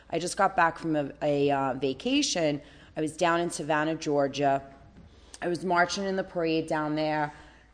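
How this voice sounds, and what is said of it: Hoarse, partly lost voice. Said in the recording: “I have half a voice. ... My voice is a little hoarse.”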